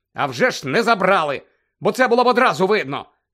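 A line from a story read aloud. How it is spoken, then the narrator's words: Angry. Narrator (Ukrainian): сердито кинув Гаррі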